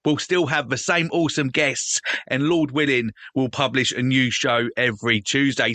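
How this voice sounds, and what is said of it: British accent. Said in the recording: “from here in the UK ... over here in the UK, and apart from the accent”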